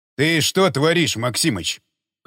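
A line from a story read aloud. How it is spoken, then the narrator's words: Growled from the doorway. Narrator (Russian): Прямо с порога зарычал он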